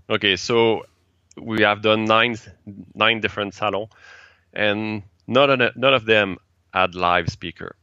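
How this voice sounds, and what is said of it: French Canadian accent. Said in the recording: “you have a French Canadian accent”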